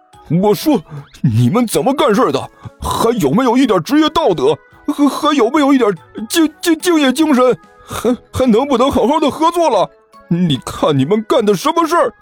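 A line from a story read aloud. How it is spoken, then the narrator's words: Furious roar over phone. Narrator (Chinese): 傅晨心里的火就蹭蹭的就冒了上来，对着电话里吼道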